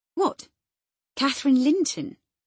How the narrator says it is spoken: I exclaimed, astonished

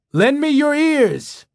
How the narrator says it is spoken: a man shouted

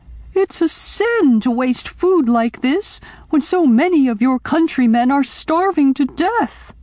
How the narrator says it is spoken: she screamed

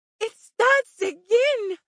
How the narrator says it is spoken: she screamed

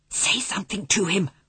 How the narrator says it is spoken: whispered Omri

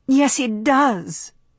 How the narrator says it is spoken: she cried

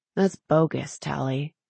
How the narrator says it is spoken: Zane said softly

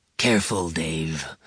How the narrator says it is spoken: Zavid said in a low tone

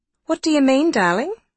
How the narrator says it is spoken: would say, brightly interested

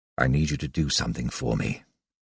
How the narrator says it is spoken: under his breath, he murmured

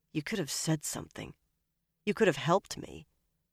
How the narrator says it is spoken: Aloud, she muttered to Shiriam

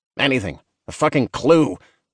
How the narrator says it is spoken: Bernard barked

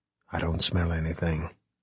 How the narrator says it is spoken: he whispered

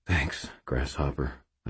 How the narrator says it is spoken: I said quietly

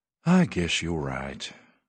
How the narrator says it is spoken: Irv said with a sigh

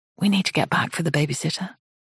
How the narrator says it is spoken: she whispers into Nathan's ear

